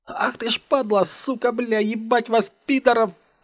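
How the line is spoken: Shrieking. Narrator (Russian): Пробиваясь сквозь зон в ушах, завизжал слева Рудый

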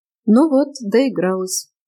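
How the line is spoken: Sad. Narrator (Russian): печально констатировал Эдриан

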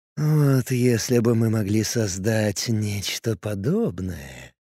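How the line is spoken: Dreamy drawl. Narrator (Russian): мечтательно протянул Лист

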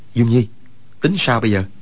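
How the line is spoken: Lowered voice. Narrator (Vietnamese): Quách Tĩnh hạ giọng nói

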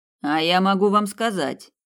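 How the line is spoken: Cold. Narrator (Russian): холодно произнес Снейдер

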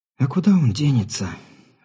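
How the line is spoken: Sighing. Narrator (Russian): вздохнула женщина

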